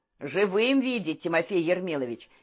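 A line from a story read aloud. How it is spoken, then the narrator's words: Dry chuckle. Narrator (Russian): Пискунов сухо усмехнулся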